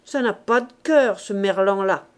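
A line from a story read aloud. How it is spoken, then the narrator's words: Grumbled. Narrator (French): grommela-t-il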